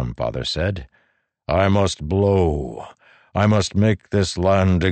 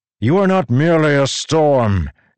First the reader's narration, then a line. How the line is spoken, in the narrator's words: Dalinar bellowed, his voice changing to rumbles of thunder